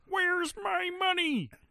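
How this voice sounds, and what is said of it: Kermit the Frog voice impression. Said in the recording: “I'm not doing my good Kermit today.”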